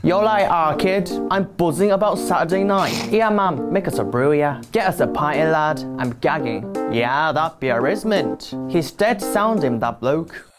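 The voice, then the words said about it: Put-on Manchester accent. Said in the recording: “Korean Billy doing Manchester.”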